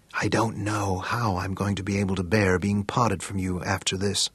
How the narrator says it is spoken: she snuggled against him and whispered

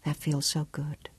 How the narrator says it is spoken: she whispered

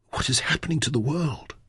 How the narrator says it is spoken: breathed through pale, dry lips

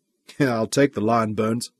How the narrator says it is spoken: Michael chuckled

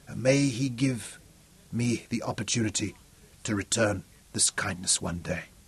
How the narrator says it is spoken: whispered

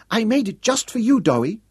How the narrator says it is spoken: she piped

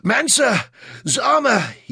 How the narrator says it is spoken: he croaked through the pain of his aching lungs

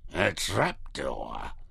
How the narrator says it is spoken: he growled

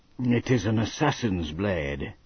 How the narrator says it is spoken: Ned said quietly

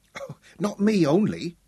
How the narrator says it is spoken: she giggled up into his face

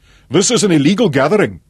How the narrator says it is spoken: the commander addressed the young man

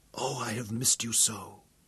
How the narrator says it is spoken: she whispered

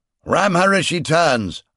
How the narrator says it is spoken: I snapped at Zaras

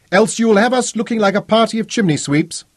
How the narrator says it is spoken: Codrington shouted down to his bosun in the lighter

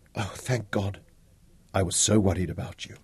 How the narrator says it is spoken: Tara leaned forward from the back seat and whispered

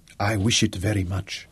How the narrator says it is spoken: whispered, and slowly and voluptuously

